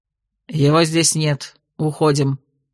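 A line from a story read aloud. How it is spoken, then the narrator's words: Gloomy statement. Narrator (Russian): мрачно констатировал мастер Вентре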